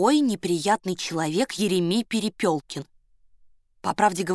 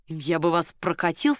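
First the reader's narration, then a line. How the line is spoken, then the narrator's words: Plain. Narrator (Russian): сказал Соболев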